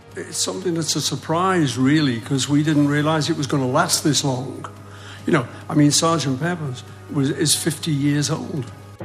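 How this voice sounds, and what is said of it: Distinctive unmistakable accent. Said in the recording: “If the singing voice is a little deeper, the accent is unmistakable.”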